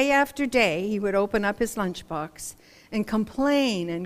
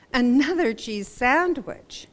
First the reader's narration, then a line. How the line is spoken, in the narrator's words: he exclaimed